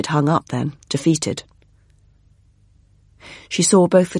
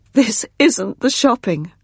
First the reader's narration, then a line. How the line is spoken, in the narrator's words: sobbed, her shoulders heaving